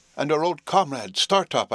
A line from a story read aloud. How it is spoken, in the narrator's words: I cried